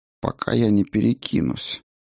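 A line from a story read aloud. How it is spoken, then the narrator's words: Gloomy. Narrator (Russian): мрачно сказала Айка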